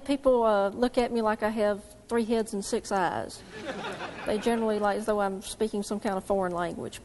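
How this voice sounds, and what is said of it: Southern American accent. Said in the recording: “if you have not guessed, this young lady is from the South ... your accent”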